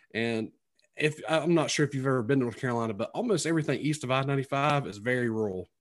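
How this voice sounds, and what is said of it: Twangy rural North Carolina accent. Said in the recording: “you can tell by my accent, it's very twangy because I'm originally from Sampson County, which is, you know, south of Raleigh”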